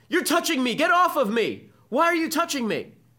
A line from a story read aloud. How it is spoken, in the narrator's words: all the students begin yelling at him